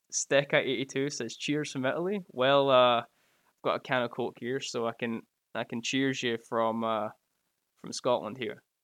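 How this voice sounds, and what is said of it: Scottish accent. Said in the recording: “That was a challenge for me to say with my accent”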